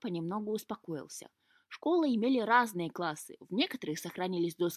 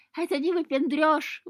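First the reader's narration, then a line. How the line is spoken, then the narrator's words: Squealing cat. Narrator (Russian): взвизгнул кот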